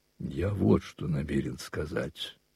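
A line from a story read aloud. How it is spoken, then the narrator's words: Cold and calm. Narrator (Russian): продолжал он холодно и спокойно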